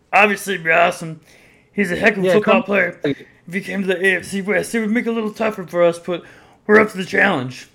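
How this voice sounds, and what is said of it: Poor Patrick Mahomes impression. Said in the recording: “That's probably a terrible impression”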